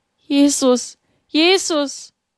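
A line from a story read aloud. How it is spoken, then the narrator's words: Trembling cry. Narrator (German): Mit bebenden Lippen rief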